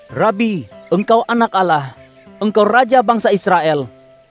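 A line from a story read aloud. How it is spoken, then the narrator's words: Exclaiming. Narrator (Indonesian): Natanael berseru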